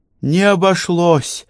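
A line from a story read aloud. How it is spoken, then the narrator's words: Sighing. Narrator (Russian): вздохнула Элеонора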